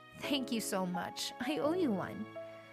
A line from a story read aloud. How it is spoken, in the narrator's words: whispered in his ear